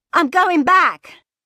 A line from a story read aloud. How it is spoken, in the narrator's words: she shouted